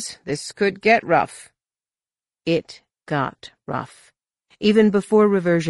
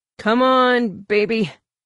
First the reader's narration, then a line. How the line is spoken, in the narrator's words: Corin grunted